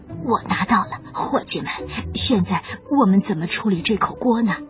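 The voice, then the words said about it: Quiet, whispered speech. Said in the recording (Chinese): “小胖墩儿小声地说”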